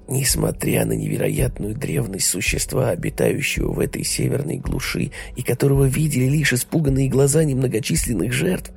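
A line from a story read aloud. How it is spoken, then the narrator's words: Whispering. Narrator (Russian): шептал старухе Люк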